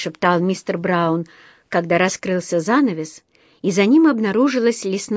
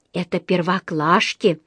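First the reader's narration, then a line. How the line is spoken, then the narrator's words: Whispered. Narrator (Russian): прошептала Джуди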